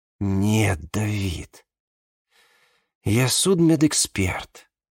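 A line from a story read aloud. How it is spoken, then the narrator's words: Tired whisper. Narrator (Russian): устало прошептала она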